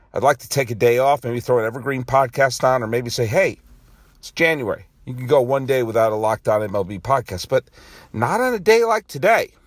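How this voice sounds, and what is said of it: Weak voice with a cough. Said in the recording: “you can probably hear I have a bit of a cough. My voice isn't as strong as it would like to be.”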